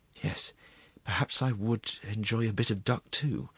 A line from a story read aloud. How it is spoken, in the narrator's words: breathed the assistant prosecuting attorney